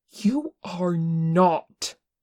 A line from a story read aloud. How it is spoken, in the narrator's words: Tenkun said fiercely